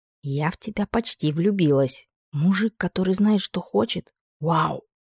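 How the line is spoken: Delighted whisper. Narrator (Russian): прошепталась восторженной улыбкой

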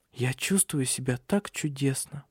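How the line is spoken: Delighted whisper. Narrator (Russian): прошептала Силия с восторгом

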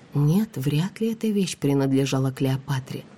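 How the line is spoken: Whispered reply. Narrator (Russian): прошептала я в ответ

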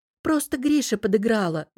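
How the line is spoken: Guilty sigh, young woman. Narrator (Russian): вздохнула девушка, виновато

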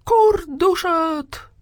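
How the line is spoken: Shouting again. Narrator (Russian): прокричал в очередной раз Петюня

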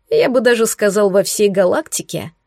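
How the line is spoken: Chuckling yellow ball. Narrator (Russian): хохотнул желтый шарик

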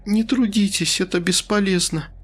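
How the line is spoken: Sigh. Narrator (Russian): вздохнула женщина

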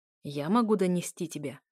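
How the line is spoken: Growled reply. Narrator (Russian): раздалось рычание в ответ

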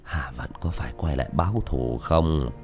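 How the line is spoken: Old man sighing. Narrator (Vietnamese): Lão hiệu trưởng thở dài

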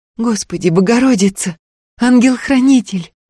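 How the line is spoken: Pleading prayer. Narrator (Russian): взмолила Устинья

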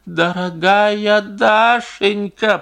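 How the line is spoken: Moaning. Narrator (Russian): простонал Стрижин

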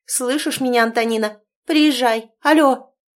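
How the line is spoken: Ear-ringing loud shouting. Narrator (Russian): заловка начала алёкать так громко, что зазвенело в ушах

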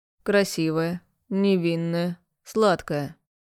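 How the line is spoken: Slow, husky voice. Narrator (Russian): перечисляет тягучим хриплым голосом

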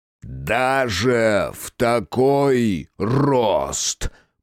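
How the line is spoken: Booming from above. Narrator (Russian): прогремело с высоты

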